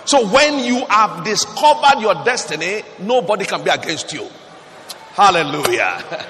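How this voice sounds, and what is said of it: Shouting. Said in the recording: “I'm shouting the way I'm shouting”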